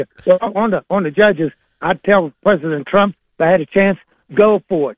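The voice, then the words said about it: Southern accent. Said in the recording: “accents of our listeners in Winchester, Virginia ... That's a high-end Southern accent”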